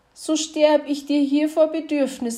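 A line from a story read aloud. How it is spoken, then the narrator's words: Plain. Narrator (German): antwortete das Rehchen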